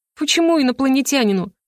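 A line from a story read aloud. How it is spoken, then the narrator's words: Laughing through tears. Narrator (Russian): Смеюсь сквозь слезы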